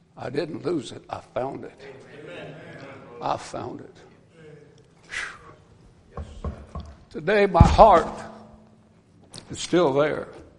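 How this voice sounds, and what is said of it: Weepy, emotional voice. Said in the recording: “I'm getting weepy up here ... We get emotional.”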